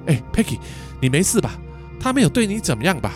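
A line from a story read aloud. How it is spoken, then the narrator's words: Breathless, concerned. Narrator (Chinese): 喘着粗气的嘉文关心的问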